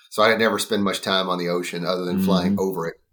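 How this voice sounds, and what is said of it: Thick East Texas drawl. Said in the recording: “you can tell from my accent. I'm from East Texas. I mean, I have a pretty thick drawl”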